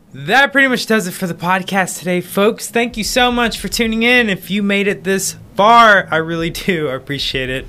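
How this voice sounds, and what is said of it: Loud, excited yelling. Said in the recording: “Why am I yelling? ... I'm just excited.”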